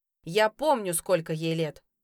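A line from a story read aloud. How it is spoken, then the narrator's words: Barked. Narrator (Russian): рявкнул он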